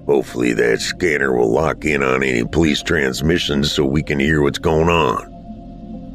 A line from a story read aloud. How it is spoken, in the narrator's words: Dad muttered